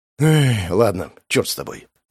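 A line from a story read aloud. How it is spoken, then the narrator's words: Sighed. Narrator (Russian): Вздохнул я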